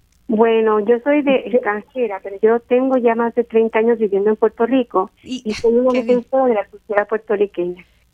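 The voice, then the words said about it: Speaks Spanish with a foreign accent. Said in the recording (Spanish): “Le, le noto a usted un acento.”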